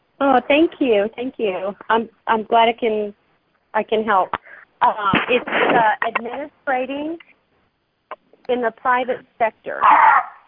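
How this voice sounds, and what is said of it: Texan accent. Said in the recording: “I've got this Texan accent”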